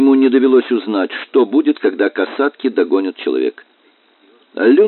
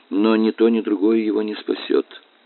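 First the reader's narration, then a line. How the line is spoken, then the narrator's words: Gloomy. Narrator (Russian): мрачно заключил Франклин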